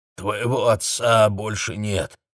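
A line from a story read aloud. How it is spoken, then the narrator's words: Distant hoarse voice. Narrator (Russian): звучал издалека сиплый голос дяди Мсто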